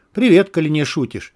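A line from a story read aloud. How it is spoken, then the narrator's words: Flat bland tone. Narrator (Russian): пресным тоном произнес Горлов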